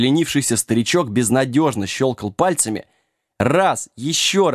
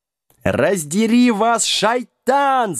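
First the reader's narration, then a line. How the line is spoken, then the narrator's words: Yelling khan. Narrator (Russian): завопил хан Ифритов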